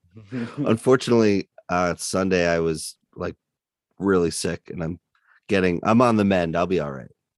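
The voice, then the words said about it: Hoarse, strained sick voice. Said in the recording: “as you can tell, my voice is shot ... sinus infection”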